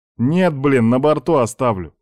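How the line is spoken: Snorting soldier. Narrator (Russian): фыркнул морпех

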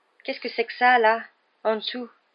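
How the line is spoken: Trembling voice. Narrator (French): dit Ron d'une voix tremblante

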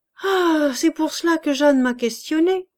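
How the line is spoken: Exclaimed. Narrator (French): s'écria M

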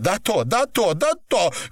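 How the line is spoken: Shouting. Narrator (Russian): кричала Наташа

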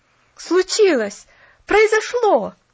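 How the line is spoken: Boy's exclamation. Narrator (Russian): воскликнул парнишка

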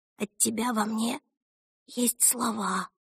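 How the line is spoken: Whisper. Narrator (Russian): прошептала она

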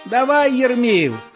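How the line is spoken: Crowd shouting. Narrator (Russian): кричали Ермолаю

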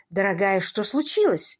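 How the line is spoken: Concerned exclamation. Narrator (Russian): При виде запыхавшейся Элли воскликнула Минни

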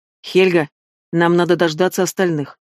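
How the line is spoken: Firm declaration. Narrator (Russian): твердым голосом заявил он

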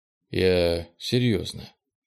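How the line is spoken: Sighing. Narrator (Russian): Кенни вздохнул

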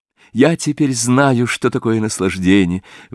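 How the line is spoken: Exclaiming. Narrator (Russian): воскликнул Дориан Грей

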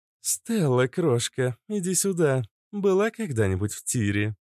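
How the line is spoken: Sugary sweet question. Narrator (Russian): Елейным голоском поинтересовалась Иштар

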